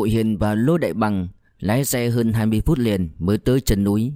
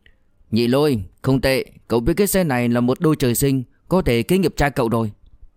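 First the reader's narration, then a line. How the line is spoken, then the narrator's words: Loud call. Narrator (Vietnamese): Diệp Dũng lớn tiếng gọi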